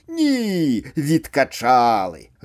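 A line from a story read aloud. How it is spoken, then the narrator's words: Gruff bark. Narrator (Belarusian): гаркнув мужчина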